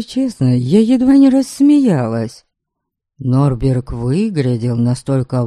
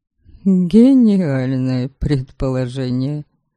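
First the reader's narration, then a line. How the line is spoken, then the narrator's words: Exasperated mutter under breath. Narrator (Russian): Не выдержав, буркнула я себе под нос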